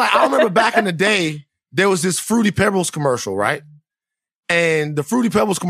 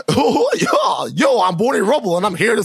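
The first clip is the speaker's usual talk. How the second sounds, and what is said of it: Imitates a cartoon character's voice. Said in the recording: “a really good Barney impression”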